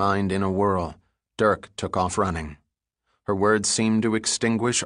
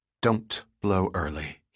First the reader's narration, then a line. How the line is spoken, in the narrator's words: muttered under his breath